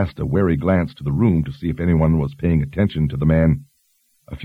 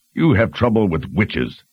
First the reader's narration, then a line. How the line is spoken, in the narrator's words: Stein roared